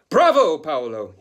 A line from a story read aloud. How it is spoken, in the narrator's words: he shouted